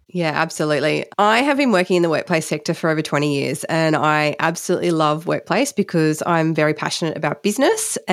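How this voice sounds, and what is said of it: Congested, snuffly voice. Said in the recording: “I'm starting to get a bit of a cold. So hence the reason I'm a bit snuffy today”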